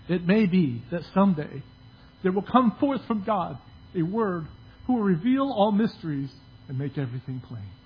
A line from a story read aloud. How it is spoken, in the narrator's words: out of despair of this search for truth that Plato is reported to have said wistfully